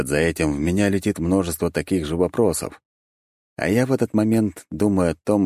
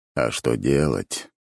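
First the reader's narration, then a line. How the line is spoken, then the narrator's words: Tired inward sigh. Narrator (Russian): устало вздыхаю про себя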